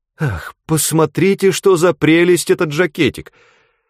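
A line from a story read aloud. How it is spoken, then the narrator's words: Feigned rapturous exclamation. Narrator (Russian): воскликнула она, разыгрывая такое восторженное изумление, словно впервые увидела эту вещь и была внезапно поражена ею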